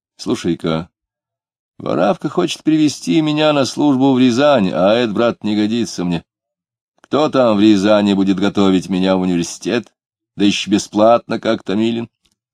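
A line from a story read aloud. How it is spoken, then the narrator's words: Gloomy. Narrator (Russian): Дронов заговорил угрюмо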